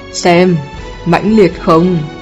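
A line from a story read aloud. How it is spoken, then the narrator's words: Frightened crowd exclaiming. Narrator (Vietnamese): Mọi người sợ hãi than không ngớt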